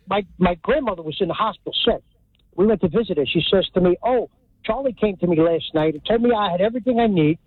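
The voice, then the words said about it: Hudson County New Jersey accent. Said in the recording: “This is a real Hudson County accent”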